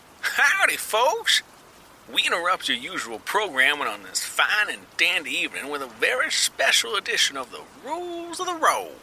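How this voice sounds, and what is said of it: Cowboy-sounding old-time radio announcer. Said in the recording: “some cowboy-sounding man straight from some old-school radio sketch”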